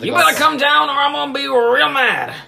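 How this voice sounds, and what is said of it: Angry husband character voice. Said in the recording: “my impersonation of man mad at wife ... Man in charge of golf club mad at wife.”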